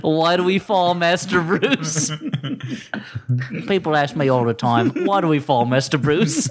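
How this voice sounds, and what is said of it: Imitates another person's voice. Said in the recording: “Are you doing an impression of somebody else?... Just doing the most famous Michael Caine line.”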